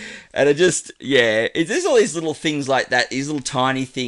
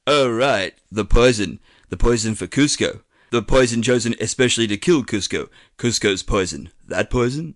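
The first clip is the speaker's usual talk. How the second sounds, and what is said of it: Patrick Warburton's Kronk impression. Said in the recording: “this is my best and probably worst Patrick Warburton impersonation”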